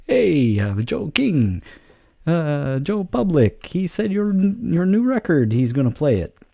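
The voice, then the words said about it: Bad put-on Italian accent. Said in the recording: “That's the worst Italian accent I've ever done, ever.”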